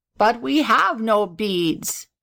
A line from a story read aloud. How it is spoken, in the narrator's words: said the gobbler sadly